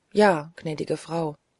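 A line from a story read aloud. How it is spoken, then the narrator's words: Quiet old woman. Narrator (German): erwiderte die alte Haushälterin leise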